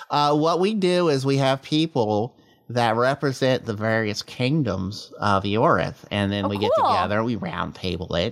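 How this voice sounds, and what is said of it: Speaks in a character voice. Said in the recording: “I'm doing it in the character voice still”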